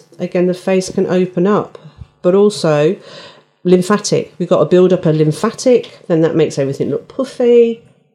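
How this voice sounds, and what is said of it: Midlands English accent. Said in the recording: “my Midlands accent's really came in there”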